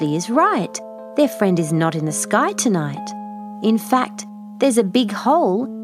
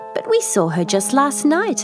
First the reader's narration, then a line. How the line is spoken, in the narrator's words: Maisha exclaims